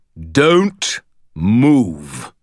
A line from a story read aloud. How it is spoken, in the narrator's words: thundered a deep, resonant voice from the hallway outside